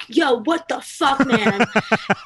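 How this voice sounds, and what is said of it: Mock straight man voice. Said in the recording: “my impression of a straight man”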